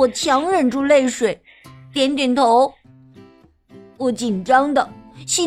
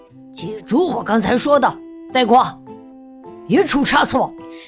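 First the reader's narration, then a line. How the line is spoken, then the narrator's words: Low voice. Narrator (Chinese): 达娜低声对我说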